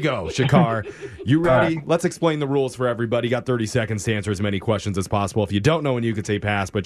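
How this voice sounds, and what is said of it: Usual voice. Nothing is said of it.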